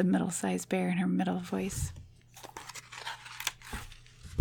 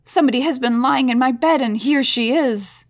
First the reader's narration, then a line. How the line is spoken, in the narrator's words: he cried